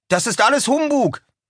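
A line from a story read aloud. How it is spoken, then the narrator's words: Calling out. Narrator (German): rief Washington Otis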